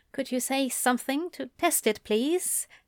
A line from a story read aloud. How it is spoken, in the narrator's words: Newton asked quietly